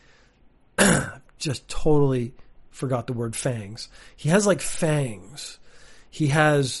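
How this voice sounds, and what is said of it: Usual voice. Nothing is said of it.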